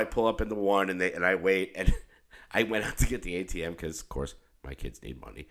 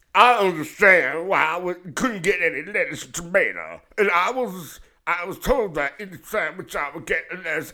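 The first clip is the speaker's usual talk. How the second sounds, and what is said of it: Strained, numb John Travolta-like voice. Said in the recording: “I just keep doing the voice ... It's kind of like if John Travolta had to take a shit ... John Travolta constipated or John Travolta coming off a massive amount of Novocaine”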